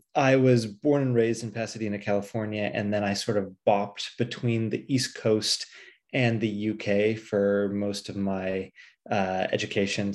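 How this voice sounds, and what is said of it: American accent. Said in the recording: “as you can probably tell from my accent, uh, I am not, in fact, British.”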